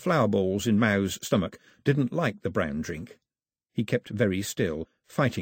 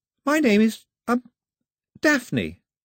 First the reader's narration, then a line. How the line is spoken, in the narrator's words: The girl nervously said